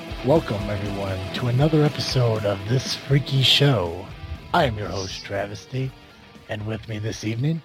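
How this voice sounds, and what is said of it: Creepy put-on voice. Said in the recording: “doing that creepy voice”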